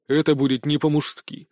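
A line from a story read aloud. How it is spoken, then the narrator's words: Cold. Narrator (Russian): холодно произнес Толик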